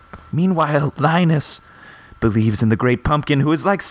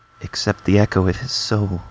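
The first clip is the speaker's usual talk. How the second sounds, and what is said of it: Spooky voice. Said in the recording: “That was such a good spooky voice”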